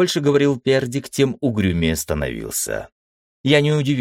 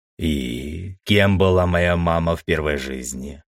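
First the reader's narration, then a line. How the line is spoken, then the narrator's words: Gloomy question. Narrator (Russian): мрачно спросил я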